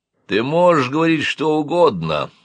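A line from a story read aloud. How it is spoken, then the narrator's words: Muffled, hollow voice. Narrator (Russian): глухо сказал Копытин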